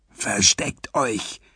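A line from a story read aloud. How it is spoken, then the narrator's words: Whispering. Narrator (German): flüsterte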